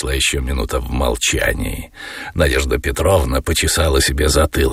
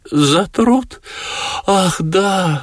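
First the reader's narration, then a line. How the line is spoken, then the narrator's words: Flustered babbling. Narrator (Russian): залепетала Надежда Петровна, сильно покраснев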